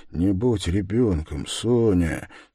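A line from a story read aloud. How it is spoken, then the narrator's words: Quiet. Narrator (Russian): тихо проговорил он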